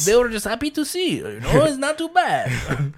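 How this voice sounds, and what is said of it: Put-on Russian accent. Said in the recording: “That was my Russian impression... Not Russian like the language, just the accent.”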